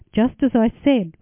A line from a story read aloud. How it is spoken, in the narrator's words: replied Yosef